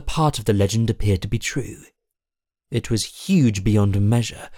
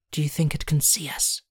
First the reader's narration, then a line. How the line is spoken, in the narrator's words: whispered